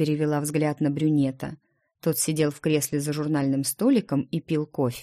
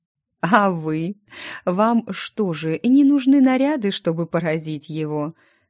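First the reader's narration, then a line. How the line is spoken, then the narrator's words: Laughing question. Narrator (Russian): сквозь смех спросил Ремир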